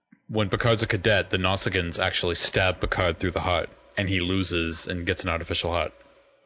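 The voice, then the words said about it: Boston accent. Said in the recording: “forgive my Boston accent”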